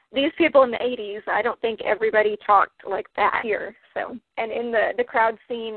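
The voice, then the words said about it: Mild Texan accent. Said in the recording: “I know I have accent, but it's not totally hickish”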